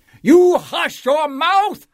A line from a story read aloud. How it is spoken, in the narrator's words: howled the mighty King Yertle